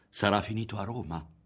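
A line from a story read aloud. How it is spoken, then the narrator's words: Someone whispered. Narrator (Italian): aveva sussurrato qualcuno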